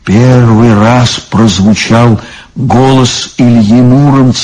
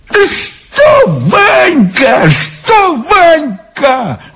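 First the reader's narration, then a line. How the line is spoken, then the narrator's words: Exclaiming. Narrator (Russian): воскликнул Иван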